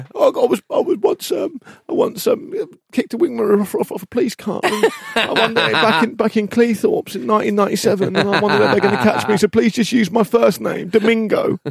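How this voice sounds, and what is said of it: Imitates another person's voice. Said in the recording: “Mick Jagger got in a bit there. ... My impression started to be a bit Mick Jagger.”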